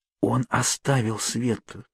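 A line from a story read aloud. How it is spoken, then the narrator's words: Whisper from behind. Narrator (Russian): послышался у меня за спиной шепот Кейт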